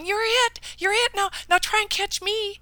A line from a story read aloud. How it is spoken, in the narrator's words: the little children running and playing and laughing and shouting, giddy with glee, yelling